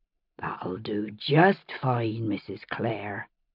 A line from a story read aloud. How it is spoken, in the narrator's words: John Quincy said, and his voice was low and warm as the hum of the bees